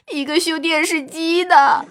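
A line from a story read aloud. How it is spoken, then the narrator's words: Crying louder. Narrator (Chinese): 他哭的声音更大了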